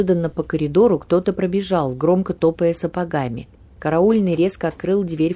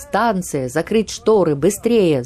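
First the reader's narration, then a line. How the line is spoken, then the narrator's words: Urgent shout. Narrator (Russian): закричал он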